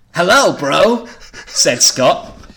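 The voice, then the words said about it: Surfer-style cartoon character voice. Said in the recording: “I'm going for a bit of a surfer motif with this... You sound like a cartoon character from a 90s cartoon.”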